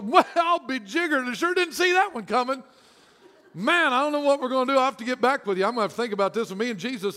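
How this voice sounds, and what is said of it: Put-on southern accent. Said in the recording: “Why do we have a southern accent every time we talk about God?”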